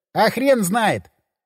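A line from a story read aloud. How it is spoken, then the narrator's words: Laughing. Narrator (Russian): он засмеялся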